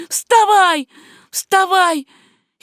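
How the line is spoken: Shouting voice. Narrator (Russian): чей-то голос кричал мне

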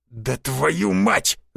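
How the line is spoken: Angry growl. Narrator (Russian): зарычал Борщев

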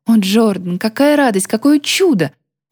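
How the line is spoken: Exclamation. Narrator (Russian): воскликнула

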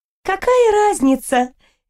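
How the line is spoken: Cheerful snort. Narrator (Russian): весело фыркнула Аниль

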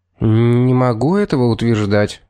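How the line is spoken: Uncertain answer. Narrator (Russian): ответил неуверенно

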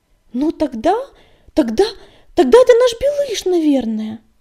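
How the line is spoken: Exclaimed. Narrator (Russian): воскликнула песчаная буря

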